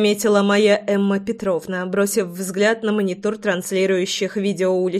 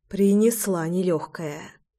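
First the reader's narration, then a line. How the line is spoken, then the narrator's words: Sigh. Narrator (Russian): вздохнула я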